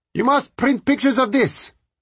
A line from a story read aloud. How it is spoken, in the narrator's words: Several people shouted at me